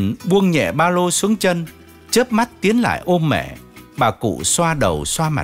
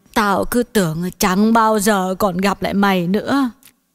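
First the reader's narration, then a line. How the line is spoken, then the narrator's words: Choked lament. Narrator (Vietnamese): Bà nghẹn ngào than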